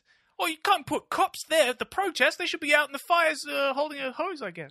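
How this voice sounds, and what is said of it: Mocking impression of right-winger. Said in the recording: “my impression of a right-wing person ... It was really good.”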